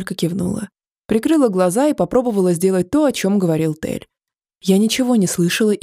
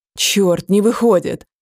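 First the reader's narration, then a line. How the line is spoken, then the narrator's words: Sudden growl. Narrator (Russian): Вдруг прорычал Тель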